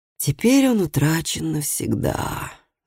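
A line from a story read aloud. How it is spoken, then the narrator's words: Sighed. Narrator (Russian): вздохнул Лив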